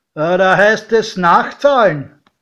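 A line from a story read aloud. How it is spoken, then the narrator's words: Called out. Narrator (German): Der Türsteher rief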